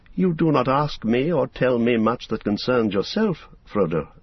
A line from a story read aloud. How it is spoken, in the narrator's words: said Gildor